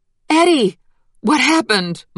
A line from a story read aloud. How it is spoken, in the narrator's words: Mama cried